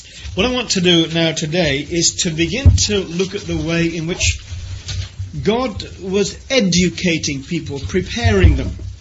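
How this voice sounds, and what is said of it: Unfamiliar regional accent. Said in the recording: “my strange accent and the way that I say book and Luke and put and put and all these other oddities”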